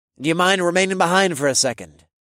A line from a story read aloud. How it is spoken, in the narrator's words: the professor's voice suddenly blurted out